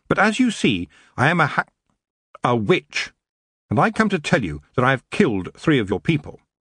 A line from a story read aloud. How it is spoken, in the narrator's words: she said firmly